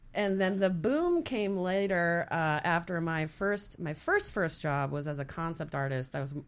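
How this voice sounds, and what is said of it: Usual voice. Nothing is said of it.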